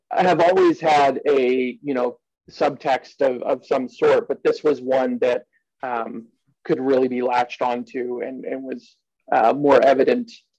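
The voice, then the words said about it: East Coast American accent. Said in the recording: “excuse my East Coast accent”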